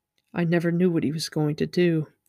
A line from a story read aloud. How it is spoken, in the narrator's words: Inktar said softly as if talking to himself